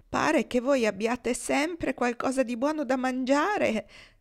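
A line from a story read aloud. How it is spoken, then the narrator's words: Whining. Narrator (Italian): piagnucolò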